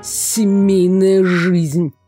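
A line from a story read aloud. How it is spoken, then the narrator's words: Grumbling. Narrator (Russian): ворчал Иртон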